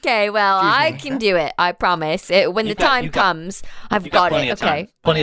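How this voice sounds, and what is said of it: Usual voice. Nothing is said of it.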